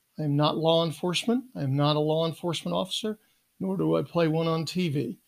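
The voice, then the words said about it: Rough, strained voice with cough. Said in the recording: “my voice is a little, uh, how we say, modulated, and I do have a cough... a severe case of bronchitis”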